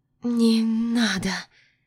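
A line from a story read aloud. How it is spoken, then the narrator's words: Moan. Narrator (Russian): Простонала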